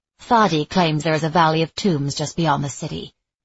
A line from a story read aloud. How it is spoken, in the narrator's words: Sophia said stiffly